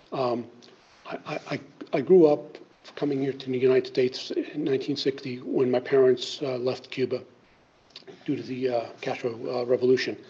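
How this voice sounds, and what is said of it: Unsteady voice cutting in and out. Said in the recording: “I still have COVID issues, so my voice may go in and out.”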